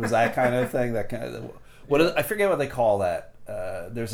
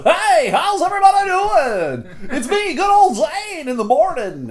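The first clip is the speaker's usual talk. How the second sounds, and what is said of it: Cheesy morning radio DJ voice. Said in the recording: “There's a term for the morning radio voice”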